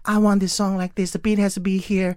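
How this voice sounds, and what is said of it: Imitates another person's voice. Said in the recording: “I don't know why I'm imitating him”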